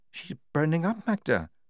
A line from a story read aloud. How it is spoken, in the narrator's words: said Lofty quietly